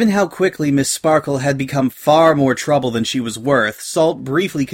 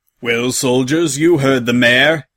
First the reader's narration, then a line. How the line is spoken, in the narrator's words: he barked